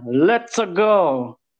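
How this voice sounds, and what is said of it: Put-on Italian cartoon-plumber accent. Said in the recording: “you like my Mario accent?”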